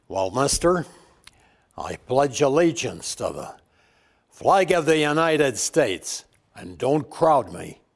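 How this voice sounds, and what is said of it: John Wayne impression. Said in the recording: “do it in a John Wayne voice ... I'm going to swear you in as John Wayne”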